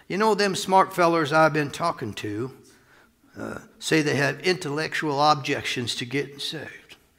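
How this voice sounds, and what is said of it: Weak put-on southern accent. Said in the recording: “I can't do his southern accent very good”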